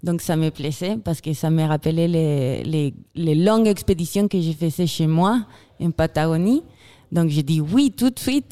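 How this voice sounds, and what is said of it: Slight Chilean accent in French. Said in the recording (French): “j'ai un petit accent... une chilienne”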